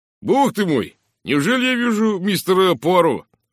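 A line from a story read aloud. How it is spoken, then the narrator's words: Exclamation. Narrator (Russian): воскликнул инспектор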